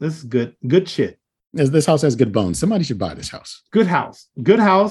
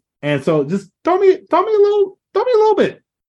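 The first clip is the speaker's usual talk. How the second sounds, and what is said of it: Unusually high-pitched voice. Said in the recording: “I don't know why my voice is going up so high”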